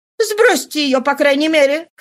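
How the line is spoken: Shouted. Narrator (Russian): крикнула она

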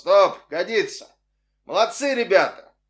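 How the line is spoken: Loud male voice. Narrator (Russian): Какой-то мужской голос громко произнес

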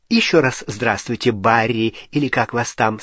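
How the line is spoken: Plain. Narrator (Russian): сказала она Гарри

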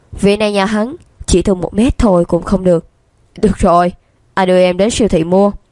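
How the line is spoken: Bursting into laughter. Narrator (Vietnamese): Lương Đông bật cười

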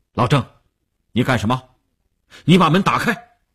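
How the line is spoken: Stern command. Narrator (Chinese): 吴长天厉声喝令

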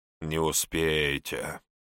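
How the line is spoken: Scoffing snort. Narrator (Russian): хмыкнул хозяин Сицилии

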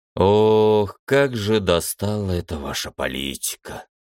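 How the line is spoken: Sighing admiral. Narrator (Russian): вздохнул адмирал

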